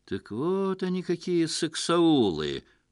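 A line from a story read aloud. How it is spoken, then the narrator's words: Knowing drawl. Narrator (Russian): понимающе протянул Лев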